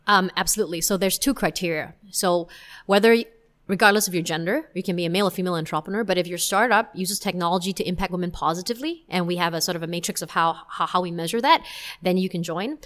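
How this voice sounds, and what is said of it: American accent. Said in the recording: “your accent is distinctly American”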